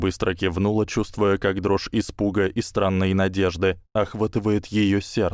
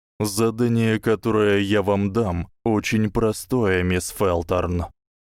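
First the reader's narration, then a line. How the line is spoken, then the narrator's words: Flat, colorless voice. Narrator (Russian): произнес профессор бесцветным голосом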